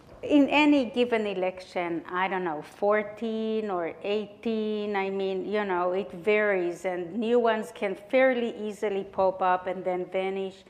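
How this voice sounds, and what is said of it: Israeli-accented English. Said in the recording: “my accent, I'm coming here from Israel”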